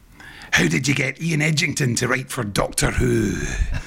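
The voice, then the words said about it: Fake Scottish accent. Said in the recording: “fake Scots accent ... No, that wasn't very good. ... That was sort of like a Scottish Jadoon.”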